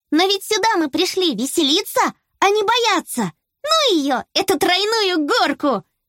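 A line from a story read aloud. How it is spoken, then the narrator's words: Exclaimed. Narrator (Russian): воскликнула Белла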